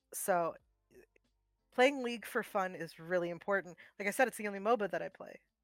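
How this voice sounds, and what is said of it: Polite customer service voice. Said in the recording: “I'm using my customer service voice”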